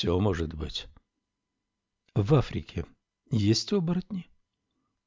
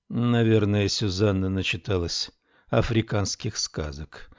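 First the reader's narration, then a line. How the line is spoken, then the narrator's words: Weary guess. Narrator (Russian): устало предположила Камилла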